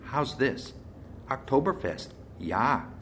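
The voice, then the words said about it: Lilting put-on German accent. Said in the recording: “the last line in a lilting accent. Heidi's German accent”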